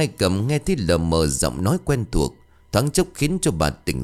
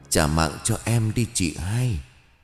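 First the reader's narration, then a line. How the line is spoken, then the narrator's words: Weak whisper. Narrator (Vietnamese): thều thào bên tai bà với giọng nói yếu ớt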